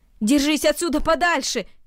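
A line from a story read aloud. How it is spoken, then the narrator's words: Shouted. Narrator (Russian): крикнул Ноэль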